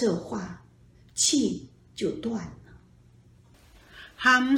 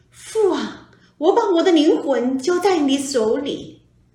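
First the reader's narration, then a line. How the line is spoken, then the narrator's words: Loud cry. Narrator (Chinese): 耶稣大声呼叫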